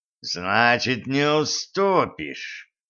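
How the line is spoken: Growl. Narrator (Russian): прорычал Майлз

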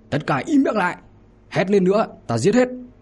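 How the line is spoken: Exasperated anger. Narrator (Vietnamese): Hiệu úy tên là Đàm Hoài Thanh thì không chịu nổi, liền giận dữ

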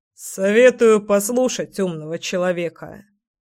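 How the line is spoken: Wry snort. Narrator (Russian): хмыкнул Николай

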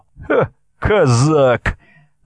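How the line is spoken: Mocking blurt. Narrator (Russian): насмешливо выпалила Настя

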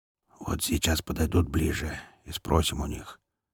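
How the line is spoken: Low owlish whisper, big man. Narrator (Russian): низким посовитым шепотом объявил самый большой и главный негр

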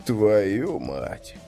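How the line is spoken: Bewildered. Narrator (Russian): растерянно прозвучал голос Кости

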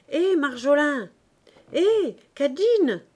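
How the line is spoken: Shouted. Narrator (French): cria-t-il

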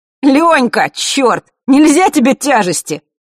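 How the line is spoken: Shouted while laughing. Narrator (Russian): смеясь вслед ему, прокричал папа

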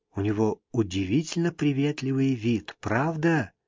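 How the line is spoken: Whisper. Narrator (Russian): шепнула она

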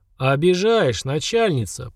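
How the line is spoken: Deep booming bass. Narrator (Russian): прогудел басом Семен

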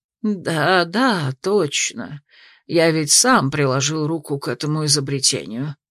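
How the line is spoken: Absent-minded mutter. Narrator (Russian): рассеянно пробормотал маг

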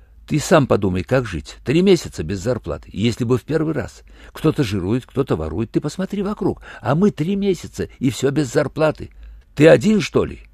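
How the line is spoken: Fast anxious muttering. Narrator (Russian): Так же быстро и тревожно забормотал в ответ его странный волосатый сосед

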